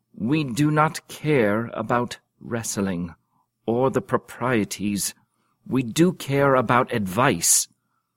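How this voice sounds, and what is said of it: Regal, kingly voice. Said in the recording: “in his most kingly voice”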